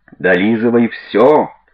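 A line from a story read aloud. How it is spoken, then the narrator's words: Yelled. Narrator (Russian): Заорал он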